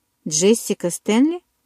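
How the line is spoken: Stern question. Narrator (Russian): строго переспросил Чарли

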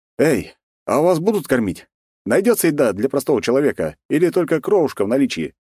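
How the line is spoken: Cheerful address. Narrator (Russian): весело обратился я к ним

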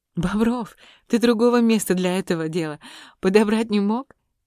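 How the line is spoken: Laughing. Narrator (Russian): засмеялась Варя

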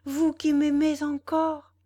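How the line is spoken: Exclaimed. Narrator (French): s'écria Valentine

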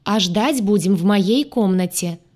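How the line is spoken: Loud. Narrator (Russian): сказала я громко

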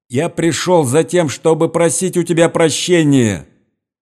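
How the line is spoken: Loud flat shout, recited. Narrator (Russian): прокричал он громким голосом, без интонации, как заученный урок

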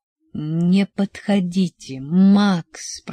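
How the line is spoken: Groaning. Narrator (Russian): простонал я

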